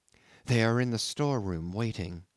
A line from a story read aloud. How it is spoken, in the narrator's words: whispered the girl